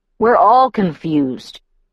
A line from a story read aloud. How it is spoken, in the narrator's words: Emmett grumbled